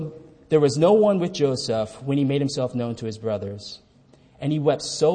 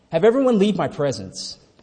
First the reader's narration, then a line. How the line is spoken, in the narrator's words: He cried out